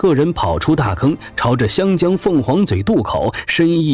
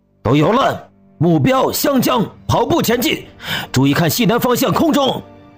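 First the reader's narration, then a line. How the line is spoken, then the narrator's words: Shouting. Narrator (Chinese): 赵永胜站起来喊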